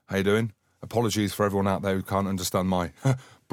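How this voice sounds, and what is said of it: Broad Scottish accent. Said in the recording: “broad Scottish accent”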